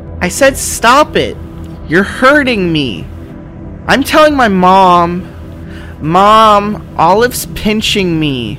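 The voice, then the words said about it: Yelling, upset child's voice. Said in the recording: “why are you yelling? Are you crying?”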